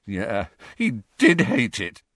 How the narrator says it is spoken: said Harry, his voice cracking

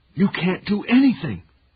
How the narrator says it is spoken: his father screamed

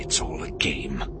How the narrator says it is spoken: he muttered to himself in frustration

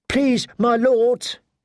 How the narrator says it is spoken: pleaded

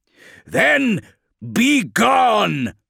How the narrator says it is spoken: shouted Tigurius

